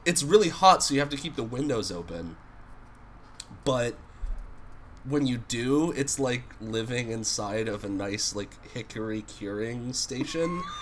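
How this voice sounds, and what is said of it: Husky voice from a cold. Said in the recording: “my voice is nice and husky today, it's because I have a cold.”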